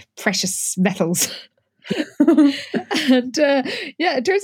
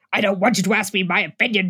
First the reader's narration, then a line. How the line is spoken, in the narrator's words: Jessica growled